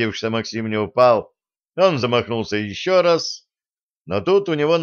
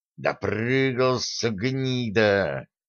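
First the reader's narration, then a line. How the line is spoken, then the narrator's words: Angry hiss. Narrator (Russian): офицер злобно шипел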